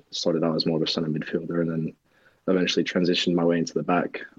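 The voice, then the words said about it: Slight English accent. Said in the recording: “you have a bit of an English accent.”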